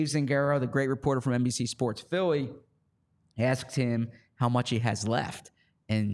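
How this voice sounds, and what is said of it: Usual voice. Nothing is said of it.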